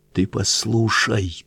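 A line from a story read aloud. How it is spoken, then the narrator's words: Fervent whisper after pause. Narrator (Russian): помолчав горячо, зашептал рыбак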